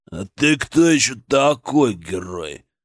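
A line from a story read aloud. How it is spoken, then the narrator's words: Deep bass voice. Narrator (Russian): пробасил он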